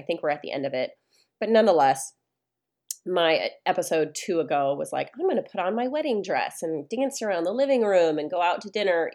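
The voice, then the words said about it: Nasal, congested voice. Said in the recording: “I sound a little nasally ... I get sick and I get a cold ... still working through this sinus infection”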